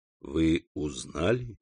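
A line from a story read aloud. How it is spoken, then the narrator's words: Moaning. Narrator (Russian): Валентина застонала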